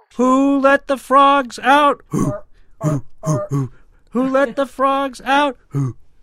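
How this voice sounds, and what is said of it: Imitates a frog call. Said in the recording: “That's a remarkably good imitation. I don't know what species that is, but it is awfully accurate.”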